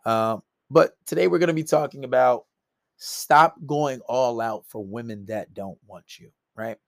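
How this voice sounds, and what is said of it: Hoarse voice. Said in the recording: “Pardon my voice. My voice is a little hoarse.”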